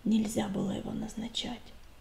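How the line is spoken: Barely audible. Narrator (Russian): произнес он еле слышно

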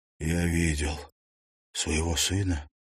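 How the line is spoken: Breathless exhale. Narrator (Russian): выдохнул

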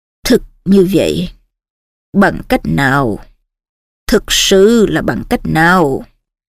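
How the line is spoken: Old man muttering. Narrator (Vietnamese): Cụ Dumbledore lẩm bẩm

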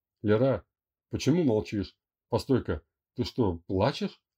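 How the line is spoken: Confused question over phone. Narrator (Russian): растерянно спрашивал он на другом конце провода

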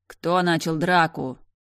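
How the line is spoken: Loud question. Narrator (Russian): громко спросил главный

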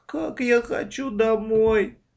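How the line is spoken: Tearful moan. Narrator (Russian): сквозь слезы простонала Маша

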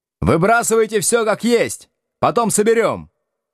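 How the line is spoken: Shout. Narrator (Russian): крикнул

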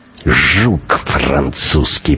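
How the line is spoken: Muttered through clenched teeth. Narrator (Russian): процедил сквозь зубы Шибанов

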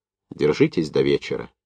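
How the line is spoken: Quiet. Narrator (Russian): негромко проговорил Новиков

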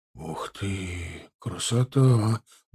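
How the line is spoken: Whisper. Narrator (Russian): прошептал Гончаров

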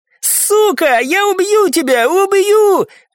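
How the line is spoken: Tearful screaming. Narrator (Russian): кричал Леон, а из его глаз скатились слезы

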